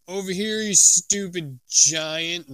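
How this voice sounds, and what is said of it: Loud booming voice. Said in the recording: “in a booming voice”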